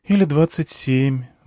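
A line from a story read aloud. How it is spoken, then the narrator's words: Sighing. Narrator (Russian): вздохнула она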